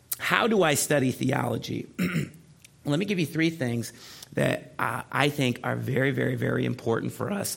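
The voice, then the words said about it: Strained, rough-sounding voice. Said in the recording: “my voice is terrible here. Let me take a sip.”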